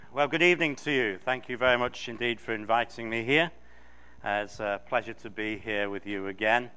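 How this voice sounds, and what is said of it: English accent. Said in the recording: “that you hear when he starts speaking, he'll quickly remind us that he's not the one with the accent ... Yes, this isn't an accent. The language is called English for a reason.”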